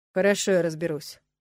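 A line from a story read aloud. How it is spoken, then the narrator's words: Dry, curt. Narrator (Russian): сухо произнес Нолан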